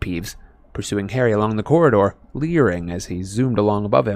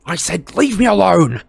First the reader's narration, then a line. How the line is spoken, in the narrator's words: Harry shouted